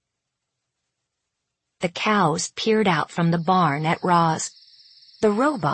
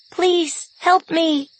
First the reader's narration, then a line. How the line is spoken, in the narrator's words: she cried